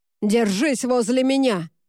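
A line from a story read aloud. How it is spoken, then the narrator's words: Roar. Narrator (Russian): взревел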